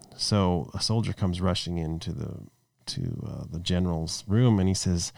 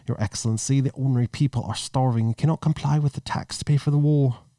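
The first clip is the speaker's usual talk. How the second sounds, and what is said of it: Put-on British accent, not very good. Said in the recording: “you put a British accent on. Now I'm going to try and do a British accent. I'm not very good at it”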